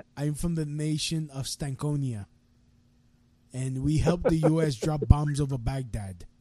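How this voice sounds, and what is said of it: Made-up mixed foreign accent. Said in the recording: “I could do whatever the accent, whatever the fucking accent I want in Mogadishu ... You can mix up the accents ... something that's from like Africa and mix it with like something from South America and like Asia, that doesn't sound like anything anyone's ever heard of”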